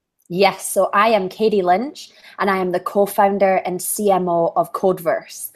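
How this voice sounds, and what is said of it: Scottish accent. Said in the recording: “Is that an Irish accent I hear? ... It's Scottish, close.”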